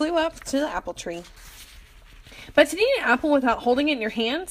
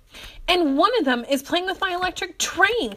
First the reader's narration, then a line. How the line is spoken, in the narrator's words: cried Philip